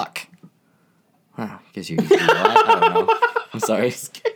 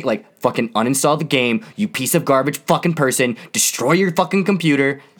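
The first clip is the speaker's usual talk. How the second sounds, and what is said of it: Yelling angrily. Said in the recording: “Why are you yelling”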